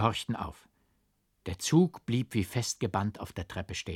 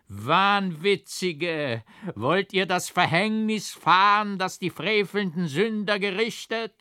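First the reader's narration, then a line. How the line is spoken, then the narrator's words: Grim, terrible voice. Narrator (German): lachte ich grimmig auf, rief mit schrecklicher Stimme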